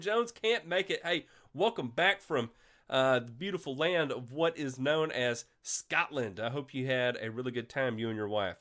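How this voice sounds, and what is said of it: Congested, sick-sounding voice. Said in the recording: “I sound terrible ... I'm dealing with a sinus infection and I just can't shake it ... I still sound terrible”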